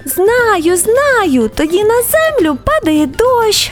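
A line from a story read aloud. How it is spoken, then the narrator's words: Raindrop exclaiming. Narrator (Ukrainian): вигукнула крапля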